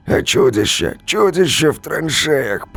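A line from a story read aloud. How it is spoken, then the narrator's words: Hoarse rasp. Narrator (Russian): прохрипел ротный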